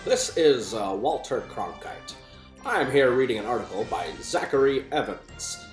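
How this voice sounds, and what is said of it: Imitates a classic news anchor's voice. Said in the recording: “it in a Walter Cronkite voice”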